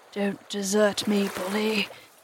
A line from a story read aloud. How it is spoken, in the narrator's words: he whispered hoarsely to it